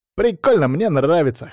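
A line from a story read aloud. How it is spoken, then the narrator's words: Amused snort. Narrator (Russian): хмыкнул Боря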